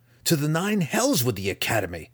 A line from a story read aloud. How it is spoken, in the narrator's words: Drizzt spat at Dinan's face